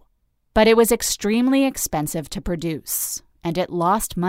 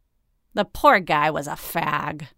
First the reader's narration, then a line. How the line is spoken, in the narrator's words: Mahan sneered